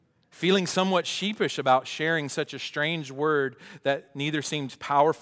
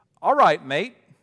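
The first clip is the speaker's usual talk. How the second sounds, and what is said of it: Put-on British accent. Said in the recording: “that's my best British accent”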